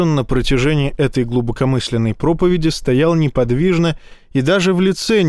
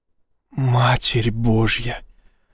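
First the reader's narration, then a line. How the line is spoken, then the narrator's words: Whisper. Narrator (Russian): прошептал Изя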